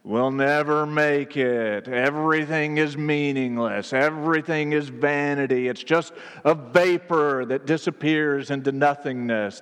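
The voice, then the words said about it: Gloomy Eeyore cartoon donkey voice. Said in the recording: “That's my Eeyore impression”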